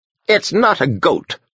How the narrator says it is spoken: the hermit said crossly

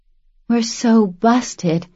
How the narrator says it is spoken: she whispered, nervous and still half asleep

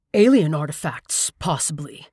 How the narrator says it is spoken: murmured Skip with ill-suppressed excitement

